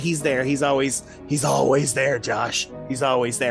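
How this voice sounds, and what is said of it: Usual voice. Nothing is said of it.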